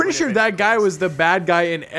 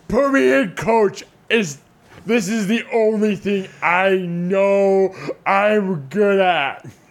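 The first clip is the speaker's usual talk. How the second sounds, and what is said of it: Imitates another person's voice. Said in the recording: “Do you guys want to hear my impersonation?”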